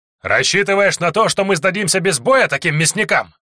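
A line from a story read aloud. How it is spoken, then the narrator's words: Shouting. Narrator (Russian): кричал Лексио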